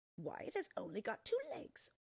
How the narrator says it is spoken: they scoffed

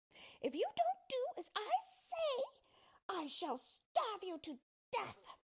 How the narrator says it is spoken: shouted at him

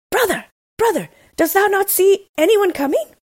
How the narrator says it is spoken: answered his husband, and then cried

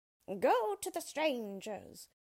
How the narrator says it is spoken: cried the witch

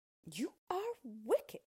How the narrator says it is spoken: cried Dorothy

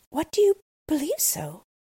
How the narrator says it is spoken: cried the little girl

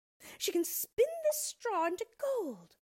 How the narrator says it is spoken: exclaimed with a look of immense triumph

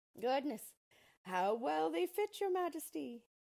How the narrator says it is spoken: they all exclaimed

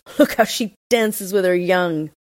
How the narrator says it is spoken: all the robbers laughed and said

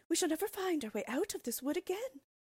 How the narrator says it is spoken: cried Gretel, beginning to weep

